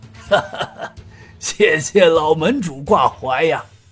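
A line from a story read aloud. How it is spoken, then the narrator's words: Knowing laugh. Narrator (Chinese): 顾东平顿时明白了吴正坤的意图，于是他笑道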